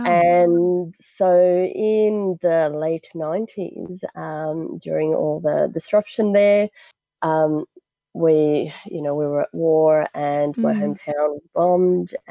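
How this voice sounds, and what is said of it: Australian-sounding accent. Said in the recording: “my Aussie-sounding accent”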